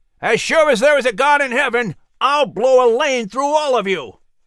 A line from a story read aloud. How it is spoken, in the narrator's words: Richardson shouted